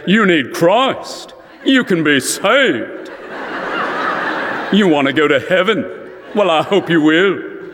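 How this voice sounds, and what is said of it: Billy Graham's North Carolina accent. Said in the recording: “Billy Graham ... that North Carolina accent”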